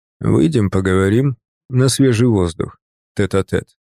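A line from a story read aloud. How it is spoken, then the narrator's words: Smooth voice. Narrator (Russian): сказал он своим гладким голосом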